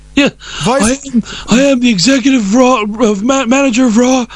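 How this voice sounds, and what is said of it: Imitates another person's voice. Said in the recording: “I'm working on my impression form. ... to really pull off the John Laurinaitis, you have to put in the flubs”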